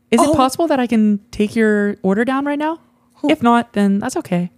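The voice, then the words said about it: Imitated girl's voice. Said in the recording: “a girl voice?”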